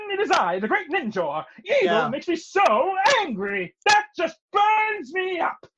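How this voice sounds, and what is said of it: Cartoon character voice. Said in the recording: “do the voice of Ninjor? ... I can totally do Ninjor”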